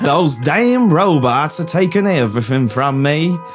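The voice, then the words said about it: Forrest Gump impression. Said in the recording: “Gone to Forrest Gump all of a sudden.”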